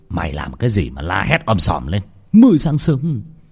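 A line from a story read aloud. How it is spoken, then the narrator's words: Sleepy old man's shout. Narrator (Vietnamese): Ông Phát ngái ngủ quát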